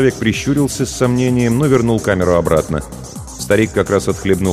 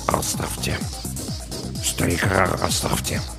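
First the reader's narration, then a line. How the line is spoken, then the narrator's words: Muttering. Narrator (Russian): Саакас пробормотал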